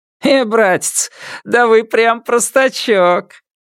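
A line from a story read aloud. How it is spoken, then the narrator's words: Fake laugh. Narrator (Russian): Водитель фальшиво рассмеялся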